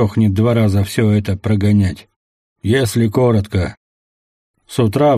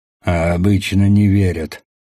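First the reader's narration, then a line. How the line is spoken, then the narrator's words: Snorting. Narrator (Russian): хмыкнул собеседник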